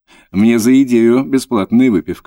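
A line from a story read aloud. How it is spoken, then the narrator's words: Laughing. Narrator (Russian): засмеялся Антон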